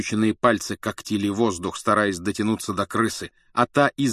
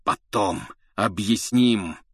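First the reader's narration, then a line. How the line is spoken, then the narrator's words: Hoarse urgent rasp. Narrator (Russian): хрипел Блэк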